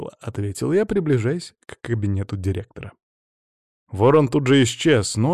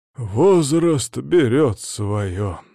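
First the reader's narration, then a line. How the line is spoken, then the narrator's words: Dejected voice. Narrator (Russian): удручающим голосом ответил Ланцов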